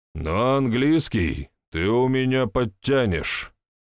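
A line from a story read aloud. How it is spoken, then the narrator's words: Stern, threatening man. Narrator (Russian): грозно ожег сына взглядом мужчина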